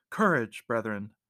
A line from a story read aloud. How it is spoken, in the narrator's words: the monk cried